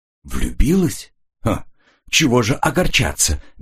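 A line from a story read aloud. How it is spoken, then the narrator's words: Soft-spoken. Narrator (Russian): мягко сказал Коридон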